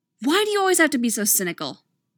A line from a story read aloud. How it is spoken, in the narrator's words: Casey snaps